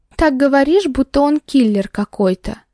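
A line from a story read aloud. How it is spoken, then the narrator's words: Nervous chuckle. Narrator (Russian): нервно хохотнула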